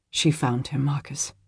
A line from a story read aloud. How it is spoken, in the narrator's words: he answered softly